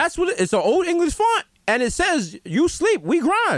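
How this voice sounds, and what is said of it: Usual voice. Nothing is said of it.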